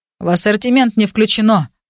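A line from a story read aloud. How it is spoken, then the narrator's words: Grumbling. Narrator (Russian): проворчал Джестер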